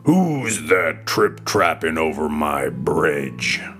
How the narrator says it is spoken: a voice roared out

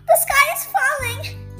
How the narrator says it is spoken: cried Chicken Licken

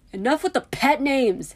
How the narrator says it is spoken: Harry exclaimed quickly

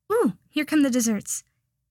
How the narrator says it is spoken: exclaimed

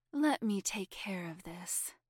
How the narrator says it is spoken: Laura murmured

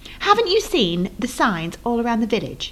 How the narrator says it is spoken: she said

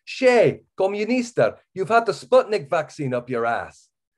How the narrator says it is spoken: a neatly bearded delinquent glances up from his inspection of a label and yells

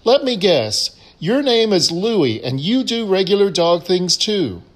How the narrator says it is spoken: The bartender excitedly says

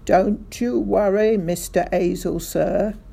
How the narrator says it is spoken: Sergeant Samways cried out

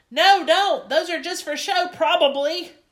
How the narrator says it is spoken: hollered

